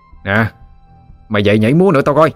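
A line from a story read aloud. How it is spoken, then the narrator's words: Harsh shout. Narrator (Vietnamese): Cậu chàng gằn giọng quát lên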